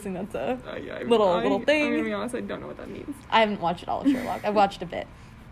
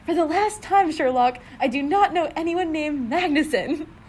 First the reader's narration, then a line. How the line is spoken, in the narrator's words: she heard Gus yelling